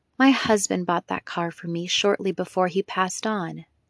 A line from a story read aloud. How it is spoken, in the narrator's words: she said softly